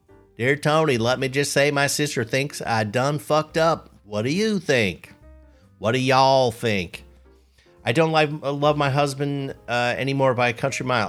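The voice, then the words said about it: Reads aloud in a put-on accent. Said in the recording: “I realize I need to read this with an accent.”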